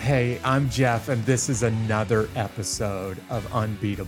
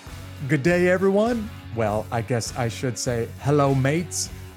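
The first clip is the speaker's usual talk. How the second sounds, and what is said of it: Attempted British accent. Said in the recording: “That's my best version of the British accent.”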